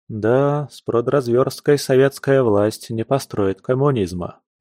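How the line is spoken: Heavy sigh. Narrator (Russian): Алексей тяжело вздохнул

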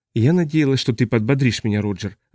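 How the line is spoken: Sigh. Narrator (Russian): вздохнула она

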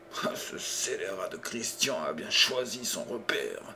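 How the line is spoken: Anguished murmur. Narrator (French): murmura-t-il angoissé

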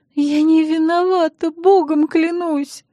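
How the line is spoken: Sobbing. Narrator (Russian): вновь зарыдала Эстер

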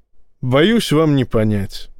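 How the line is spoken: Sighing. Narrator (Russian): вздохнул Ллойд

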